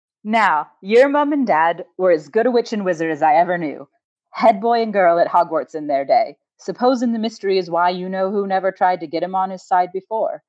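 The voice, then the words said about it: Put-on character accent. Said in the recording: “I'm ready for the accent. ... It's going to be awful.”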